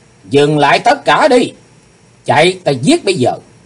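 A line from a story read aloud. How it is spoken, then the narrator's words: Sudden loud shout. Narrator (Vietnamese): Chí Tôn bỗng hét lớn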